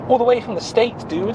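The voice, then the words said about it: Put-on American accent. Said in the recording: “Can't say dude, mate, like that. That was an American accent as well.”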